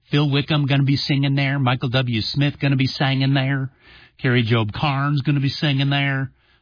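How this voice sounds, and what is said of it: Western twang. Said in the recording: “I don't know why I have a Western twang”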